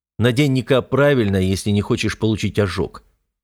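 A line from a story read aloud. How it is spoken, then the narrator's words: Stern, curt. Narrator (Russian): строго бросаю я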